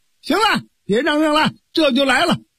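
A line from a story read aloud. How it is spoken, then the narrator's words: Loud shout. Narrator (Chinese): 蒋平高喊了一声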